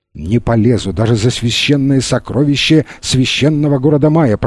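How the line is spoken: Mumbling. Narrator (Russian): пробормотал он

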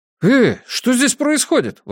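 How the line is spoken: Exclaiming. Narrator (Russian): воскликнул Питер

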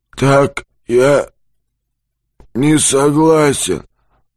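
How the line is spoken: Menacing rusty hoarse voice. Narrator (Russian): Быкову хочется разорвать его пополам, но нет сил, а потому с грозной хрипотцой в ржавом голосе

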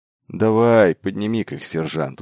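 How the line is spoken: Weary agreement. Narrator (Russian): устало согласился он

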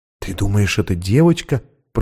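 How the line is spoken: Whisper. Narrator (Russian): прошептала Анна

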